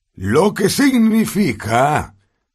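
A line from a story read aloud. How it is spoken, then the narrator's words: Shouting over applause. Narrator (Spanish): gritó Dumbledore sobre la salva de aplausos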